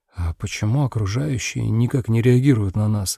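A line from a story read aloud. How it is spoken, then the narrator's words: Whispered. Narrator (Russian): Я прошептал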